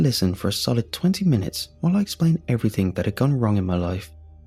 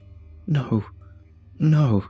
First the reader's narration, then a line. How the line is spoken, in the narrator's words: sobbed